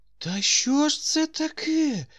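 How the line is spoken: Weak voice, old man. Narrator (Ukrainian): запитав старий ослаблим голосом

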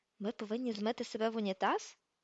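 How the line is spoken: Whispered. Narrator (Ukrainian): прошепотів він

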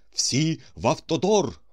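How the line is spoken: Hurried exclamation. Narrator (Ukrainian): поспіхом вигукнув він

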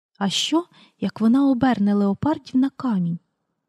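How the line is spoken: Whispered question. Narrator (Ukrainian): пошепки запитала в Пітера Сьюзан

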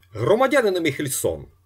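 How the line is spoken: Shouted. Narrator (Ukrainian): крикнув Остап

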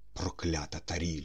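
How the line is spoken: Whisper. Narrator (Ukrainian): прошепотіла людина

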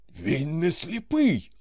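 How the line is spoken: Surprised exclamation. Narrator (Ukrainian): здивовано вигукнув Корейко

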